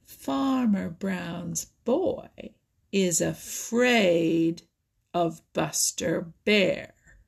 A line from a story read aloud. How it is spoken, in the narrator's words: Little Joe Otter in the slowest, most provoking way, he drawled